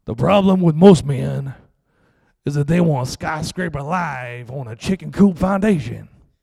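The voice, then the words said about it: Impression of Tony Evans. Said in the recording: “Pretty good impression. You ever seen Tony?”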